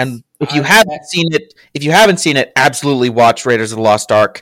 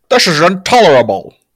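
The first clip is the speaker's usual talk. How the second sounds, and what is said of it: Imitates another person's voice. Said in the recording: “my Sean Connery impression... That was pretty good.”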